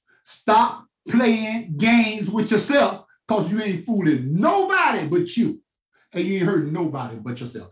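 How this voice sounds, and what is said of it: Loud, raised preaching voice. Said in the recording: “raising my voice. I'm a loud nerve.”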